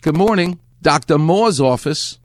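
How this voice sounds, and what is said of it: New York accent, dropped R. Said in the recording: “lovely New York accent ... if you're from New York, the R doesn't exist ... There's no R.”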